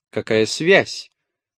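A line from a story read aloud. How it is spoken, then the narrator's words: Irritated question. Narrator (Russian): раздраженно спросила Жиэль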